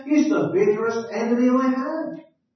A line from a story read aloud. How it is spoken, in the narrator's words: exclaimed the old preacher